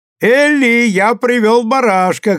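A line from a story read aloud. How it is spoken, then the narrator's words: Laughing shout. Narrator (Russian): крикнул, смеясь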